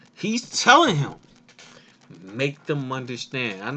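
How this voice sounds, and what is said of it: Usual voice. Nothing is said of it.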